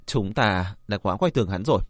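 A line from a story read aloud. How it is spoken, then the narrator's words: Sigh. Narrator (Vietnamese): Ô Nhất Dương thở dài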